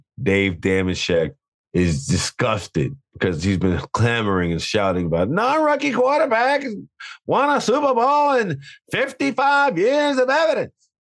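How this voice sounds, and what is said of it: Imitates another person's voice. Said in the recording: “That's my Dave impression. ... It's my Dave impression.”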